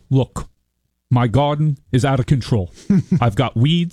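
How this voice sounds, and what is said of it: Imitates another person's voice. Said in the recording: “Bernie ... which is his only really good impersonation.”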